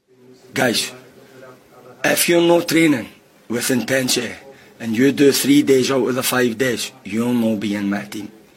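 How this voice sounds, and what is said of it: Scottish accent, sounds like Guardiola. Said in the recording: “Scottish accents ... people are basically really enjoying his accent. They're saying he sounds like the Scottish Guardiola ... it flips out of Scottish”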